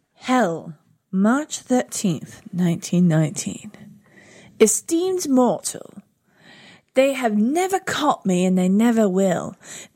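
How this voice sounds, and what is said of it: Eerie spooky reading voice. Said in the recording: “You got to do it in like an eerie accent... She has an eerie accent.”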